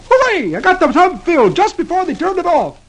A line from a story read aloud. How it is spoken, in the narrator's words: he exclaims